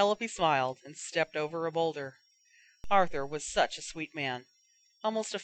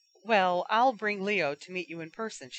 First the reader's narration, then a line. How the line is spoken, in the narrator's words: she said